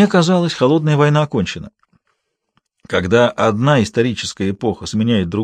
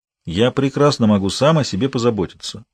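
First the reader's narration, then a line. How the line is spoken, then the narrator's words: Cold answer. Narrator (Russian): холодно ответил Валандер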